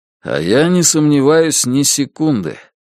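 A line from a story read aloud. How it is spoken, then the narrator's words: Gloomy objection. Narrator (Russian): мрачно возразил Бабкин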